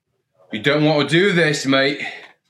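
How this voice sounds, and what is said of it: Vague British, Australian or Irish accent. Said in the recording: “in a British, Australian, Irish, maybe accent ... speaking in an accent”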